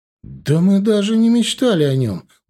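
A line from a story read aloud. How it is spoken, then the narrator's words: Emotional exclamation. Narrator (Russian): воскликнула эмоционально Леся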